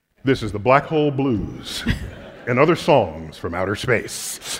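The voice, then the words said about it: Radio DJ announcer voice. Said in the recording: “You're supposed to say in a DJ voice.”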